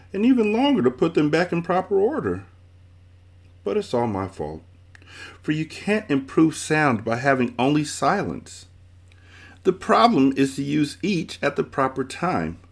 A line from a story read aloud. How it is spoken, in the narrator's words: she sobbed